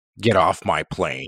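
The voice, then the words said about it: Imitates another person's voice. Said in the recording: “That was a good Harrison Ford impression.”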